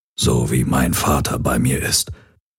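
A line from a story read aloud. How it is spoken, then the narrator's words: Murmur. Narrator (German): murmelte Hawks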